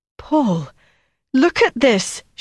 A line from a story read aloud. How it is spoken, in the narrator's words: cried